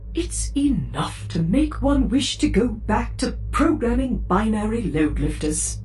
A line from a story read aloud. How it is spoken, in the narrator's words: C-3PO wistfully said